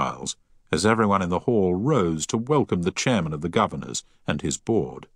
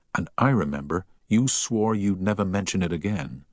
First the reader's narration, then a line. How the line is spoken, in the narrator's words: whispered Harry